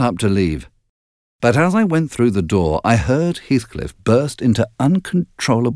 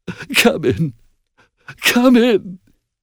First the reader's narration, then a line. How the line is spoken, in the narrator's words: he sobbed